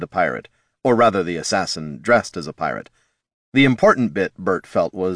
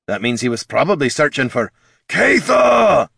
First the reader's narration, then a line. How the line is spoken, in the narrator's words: bellowed Thane